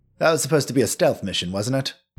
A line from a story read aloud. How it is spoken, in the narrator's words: Castian mumbles